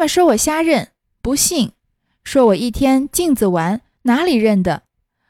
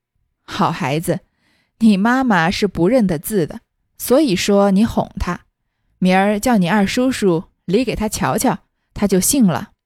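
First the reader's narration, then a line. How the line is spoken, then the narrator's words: Old woman, laughing. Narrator (Chinese): 贾母听了，笑道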